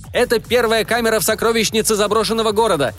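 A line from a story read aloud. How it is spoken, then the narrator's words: Screaming. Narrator (Russian): завопил он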